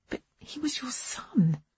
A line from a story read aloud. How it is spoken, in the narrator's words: I whispered